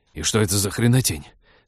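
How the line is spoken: Fierce hiss. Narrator (Russian): свирепо прошипел Тед

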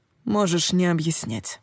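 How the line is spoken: Quiet. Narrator (Russian): тихо сказал Коул

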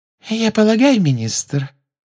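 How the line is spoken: Silky voice from behind. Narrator (Russian): шелковым голоском сказала из-за его спины Амбридж

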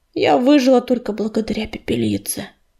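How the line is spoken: Sigh. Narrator (Russian): вздохнула медуница

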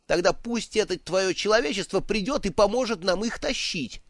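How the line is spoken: Snapping. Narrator (Russian): огрызнулся Бедн

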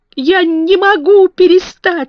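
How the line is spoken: Sobbing. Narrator (Russian): всхлипнул он

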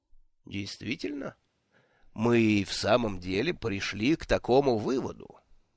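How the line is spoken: Calm inquiry. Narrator (Russian): спокойно осведомился Ворбис

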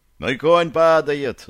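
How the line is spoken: Shouting. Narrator (Russian): закричал он

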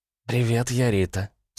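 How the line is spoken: Husky. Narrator (Russian): с хрипотцой выдала девица

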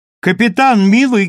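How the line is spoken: Loud call. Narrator (Russian): громко позвала Сандра

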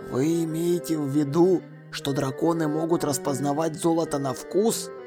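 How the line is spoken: Whispered. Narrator (Russian): прошептал Ваймс

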